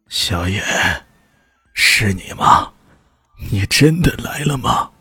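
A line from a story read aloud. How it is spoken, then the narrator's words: Hoarse voice from inside. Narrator (Chinese): 从一个房子里传出了一个嘶哑的声音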